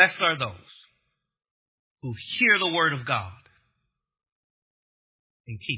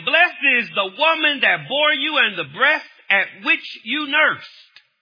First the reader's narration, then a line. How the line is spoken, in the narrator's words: a woman in the crowd raised her voice and said to him